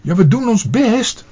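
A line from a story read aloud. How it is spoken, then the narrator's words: Called out. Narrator (Dutch): riep Pluk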